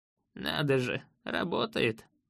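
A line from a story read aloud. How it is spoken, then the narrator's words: Old man chuckling. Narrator (Russian): хохотнул старец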